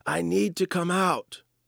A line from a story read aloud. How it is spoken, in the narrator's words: the same voice as before shouts